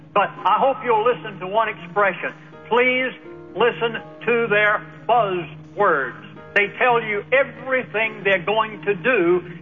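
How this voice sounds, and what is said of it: Southern American accent, fast speech. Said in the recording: “I'm talking as fast as I can ... with my southern brogue”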